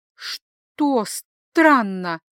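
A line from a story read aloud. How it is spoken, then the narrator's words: Strained, forced out. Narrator (Russian): выдавила из себя Ниобел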